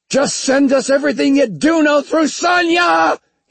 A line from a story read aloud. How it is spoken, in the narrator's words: He yelled at Evangeline